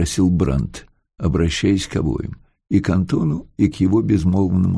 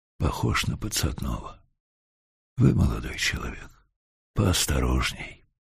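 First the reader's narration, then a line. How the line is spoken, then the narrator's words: Whisper. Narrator (Russian): Генерал Листвицкий, выбранный старостой камеры, шепнул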